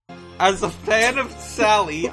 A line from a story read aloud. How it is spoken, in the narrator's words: I yelled out in dismay